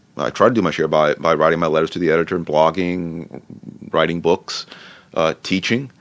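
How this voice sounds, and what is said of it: Usual voice. Nothing is said of it.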